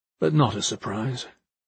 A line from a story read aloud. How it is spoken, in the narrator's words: he said calmly